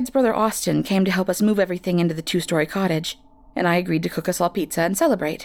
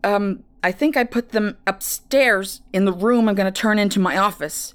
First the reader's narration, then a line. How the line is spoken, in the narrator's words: responded, grunting as they struggled